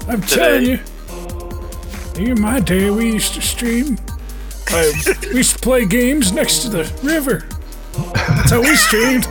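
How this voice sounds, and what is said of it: Old man character voice. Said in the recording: “That's a pretty good old man voice”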